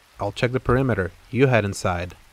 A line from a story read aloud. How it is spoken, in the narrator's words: Detective Esposito said